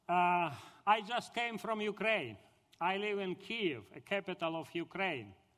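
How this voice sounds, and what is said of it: Russian accent. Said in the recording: “With my Russian accent”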